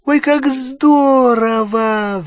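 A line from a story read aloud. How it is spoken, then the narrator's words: Excited squeal. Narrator (Russian): взвизгнула Гермиона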